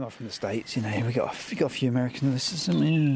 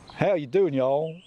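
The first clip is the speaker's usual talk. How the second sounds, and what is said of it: Put-on Texan accent. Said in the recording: “Is that Texan? ... Yeah. Yeah, that was. ... Trying to channel J.R. Ewing. ... Yeah, it's really good.”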